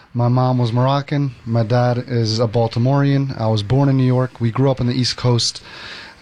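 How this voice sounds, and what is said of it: Unusual mixed accent. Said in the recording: “Where's that crazy accent from? ... That accent is a little bit of a mixed pot.”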